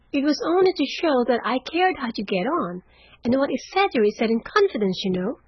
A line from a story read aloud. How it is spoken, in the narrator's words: cried Meg, much alarmed at the thought of what might follow from her careless speech